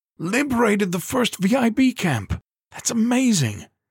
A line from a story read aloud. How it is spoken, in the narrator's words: he cried